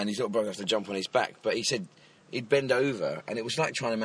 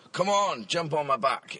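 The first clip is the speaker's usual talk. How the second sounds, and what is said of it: Put-on Scottish accent. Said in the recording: “in the Scottish accent.”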